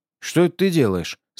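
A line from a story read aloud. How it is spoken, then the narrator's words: Plain. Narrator (Russian): спросил я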